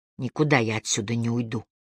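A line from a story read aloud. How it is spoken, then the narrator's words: Whispered. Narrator (Russian): шепнул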